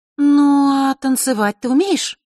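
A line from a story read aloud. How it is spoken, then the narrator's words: Drawling. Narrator (Russian): протянула она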